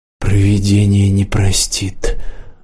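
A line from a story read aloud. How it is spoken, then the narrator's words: Hollow muffled voice. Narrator (Russian): глухо сообщила Ирена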